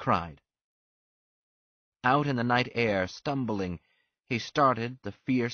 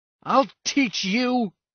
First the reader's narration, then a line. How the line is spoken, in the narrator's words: He shouted